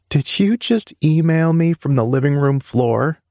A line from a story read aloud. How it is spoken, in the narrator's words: she asked with a laugh